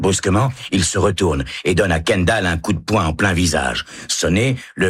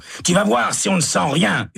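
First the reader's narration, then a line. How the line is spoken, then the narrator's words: Yelled. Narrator (French): hurle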